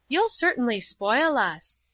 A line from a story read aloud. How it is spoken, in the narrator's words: said Mademoiselle Vertude